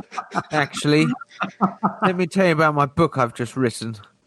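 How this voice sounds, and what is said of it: Posh English accent. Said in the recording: “We can put on the best fine English accents”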